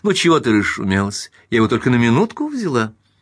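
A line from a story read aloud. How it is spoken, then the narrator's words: Exclaiming. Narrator (Russian): она воскликнула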